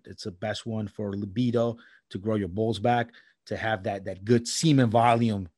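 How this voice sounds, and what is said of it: New York accent. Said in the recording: “You said it with that New York accent.”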